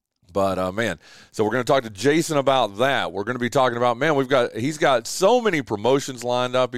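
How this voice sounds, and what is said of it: Rattly, sick-sounding voice with cough. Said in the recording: “my bronchitis rattled voice ... courtesy cough”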